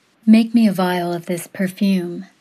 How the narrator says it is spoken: Scentless said, her voice honey-sweet

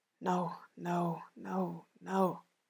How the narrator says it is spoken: she mouths

